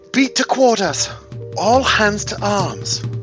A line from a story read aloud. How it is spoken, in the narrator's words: The one in the front shouts